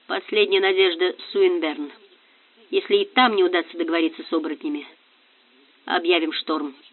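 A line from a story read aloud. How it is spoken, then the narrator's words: Unusually muffled voice. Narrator (Russian): Бангрин необычно глухо сказал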